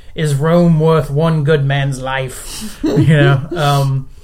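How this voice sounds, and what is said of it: Put-on movie-style accent. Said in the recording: “just in that accent... I got that from your accent”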